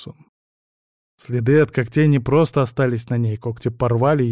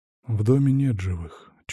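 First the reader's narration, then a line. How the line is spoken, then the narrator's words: Barely audible. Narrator (Russian): чуть слышно произнес он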